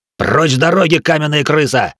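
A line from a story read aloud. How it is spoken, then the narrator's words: Barked samurai command. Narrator (Russian): рявкнул первый из четверых самураев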